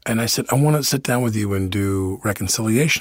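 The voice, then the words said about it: Heavy New York accent. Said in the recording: “we had this very heavy New York accent like this”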